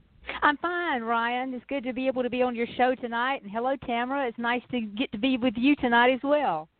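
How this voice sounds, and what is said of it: Southern US accent. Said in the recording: “I love that southern accent ... this little accent is a little South Georgia country girl”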